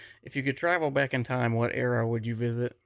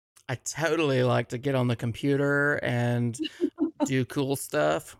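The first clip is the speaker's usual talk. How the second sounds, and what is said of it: Valley Girl voice. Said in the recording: “in a Valley Girl voice”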